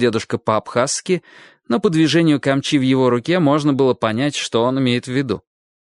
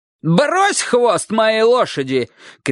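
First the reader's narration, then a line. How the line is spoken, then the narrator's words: Old man shouting in Abkhaz. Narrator (Russian): крикнул дедушка по-абхазски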